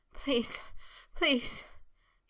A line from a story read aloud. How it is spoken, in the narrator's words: panted in a chanting plea, shudders still jerking through him